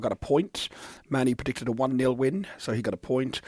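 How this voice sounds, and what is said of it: Rough, strained voice. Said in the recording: “my voice is so bad”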